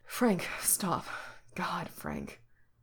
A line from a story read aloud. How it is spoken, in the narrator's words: orders breathlessly